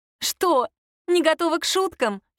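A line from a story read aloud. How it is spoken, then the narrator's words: Giggling. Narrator (Russian): хихикнула Аннет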